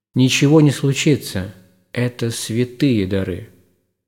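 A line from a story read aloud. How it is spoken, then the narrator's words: Calm reply. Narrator (Russian): владыка спокойно ответил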